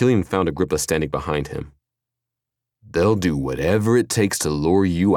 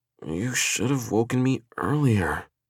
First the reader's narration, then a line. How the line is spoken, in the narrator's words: she murmured